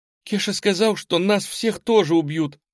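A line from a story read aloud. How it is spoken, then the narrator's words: Convulsive sobbing. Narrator (Russian): судорожно всхлипнула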